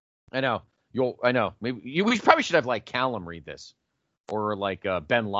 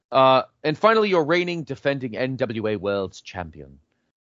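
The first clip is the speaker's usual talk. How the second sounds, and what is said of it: Attempted British accent. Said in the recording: “You need to get the British accent down ... I sound more like Lord Alfred.”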